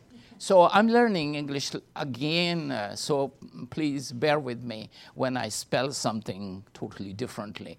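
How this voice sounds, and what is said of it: Non-native English accent. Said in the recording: “And also my accent. So I still say, the Lord is very good ... L-O-R-D and V-E-R-Y, very, is very different.”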